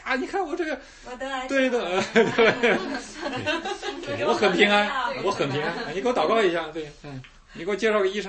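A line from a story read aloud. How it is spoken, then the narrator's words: Grinning cheerfully. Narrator (Chinese): 笑嘻嘻的说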